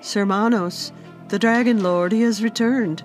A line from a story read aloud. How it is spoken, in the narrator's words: said anxiously